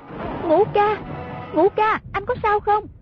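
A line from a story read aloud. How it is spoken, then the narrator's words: Repeated calling out. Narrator (Vietnamese): Nàng miệng cứ kêu lên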